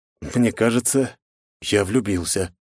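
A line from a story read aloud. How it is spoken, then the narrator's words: Breathless exhale. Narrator (Russian): выдохнул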